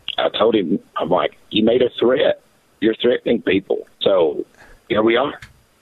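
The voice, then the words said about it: Slightly hoarse voice. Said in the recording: “my voice is a little hoarse right now, because I was speaking at quite a loud volume level”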